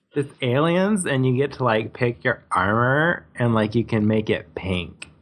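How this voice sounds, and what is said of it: Excited teenage girl voice. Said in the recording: “sound like a teenage girl going to a rock concert ... Is that your teenage girl voice?”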